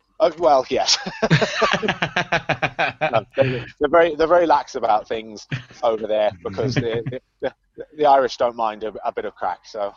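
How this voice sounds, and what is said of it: Posh English accent. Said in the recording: “my posh boy English accent”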